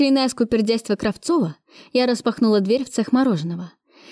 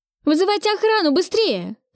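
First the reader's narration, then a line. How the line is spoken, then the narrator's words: Shouted reply. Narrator (Russian): прокричала я в ответ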